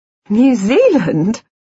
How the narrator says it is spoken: she said, laughing

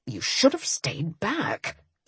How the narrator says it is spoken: Ian muttered for the second time

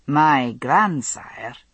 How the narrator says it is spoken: Jamie observed evenly

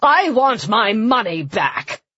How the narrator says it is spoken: someone shouted

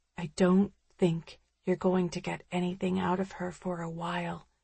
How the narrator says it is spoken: the woman says quietly

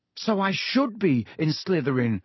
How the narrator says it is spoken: Harry said desperately

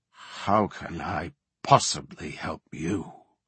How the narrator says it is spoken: the Worgen muttered

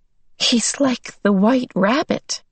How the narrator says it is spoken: Meg giggled nervously

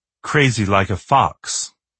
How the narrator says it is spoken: she said

